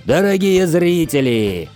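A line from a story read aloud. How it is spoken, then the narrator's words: Roared. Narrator (Russian): взревел Драмон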